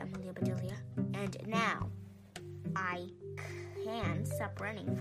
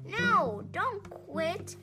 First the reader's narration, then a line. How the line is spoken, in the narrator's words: shouted the crowd